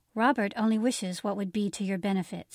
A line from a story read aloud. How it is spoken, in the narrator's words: said Mr